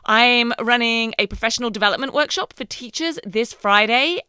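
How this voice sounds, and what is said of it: Voice affected by a cold. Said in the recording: “as you can maybe tell from my voice, I'm just getting over a cold”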